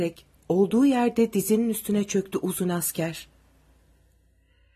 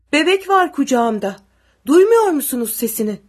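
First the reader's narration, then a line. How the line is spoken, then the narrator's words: Shouting. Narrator (Turkish): diye bağırdı Zahit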